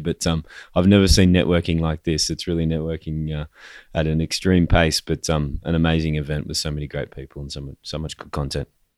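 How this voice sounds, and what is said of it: Strained, worn-out voice. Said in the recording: “as you can tell by my voice. I may not be able to speak by the end of the day”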